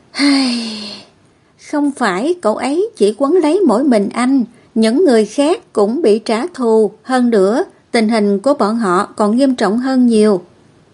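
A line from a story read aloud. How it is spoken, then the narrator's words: Sighing. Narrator (Vietnamese): Cốt Chi Tan thở dài một hơi rồi nói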